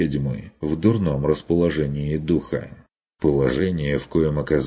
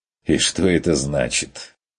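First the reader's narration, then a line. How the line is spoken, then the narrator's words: Mocking question. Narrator (Russian): уточнил насмешливо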